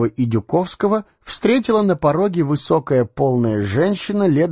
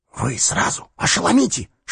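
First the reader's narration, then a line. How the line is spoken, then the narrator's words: Whisper. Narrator (Russian): шепнул ему Дюковский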